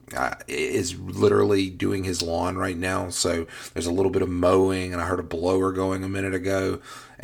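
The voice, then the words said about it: Hoarse voice. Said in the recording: “I'm a little bit hoarse this morning ... I come down with hoarseness ... I apologize if I sound a little bit like that”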